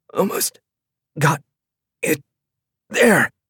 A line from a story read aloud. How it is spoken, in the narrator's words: choking out